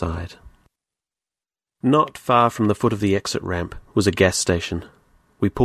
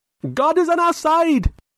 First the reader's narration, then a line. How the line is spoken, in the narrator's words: screamed